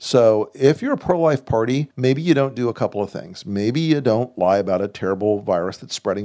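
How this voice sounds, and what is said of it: Usual voice. Nothing is said of it.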